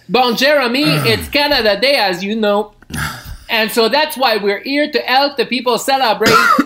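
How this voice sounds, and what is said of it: Put-on French accent in English. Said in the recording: “I'm going to speak in a terrible Franglais accent. And when I speak English, I'm going to speak with a French accent.”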